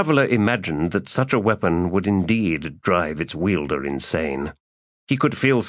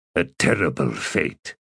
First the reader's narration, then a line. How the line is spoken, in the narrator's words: Traveller muttered